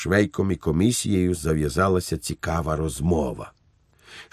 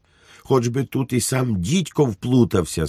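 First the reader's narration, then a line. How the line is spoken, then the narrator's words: Shrieking commission chairman. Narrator (Ukrainian): заверещав на Швейка голова комісії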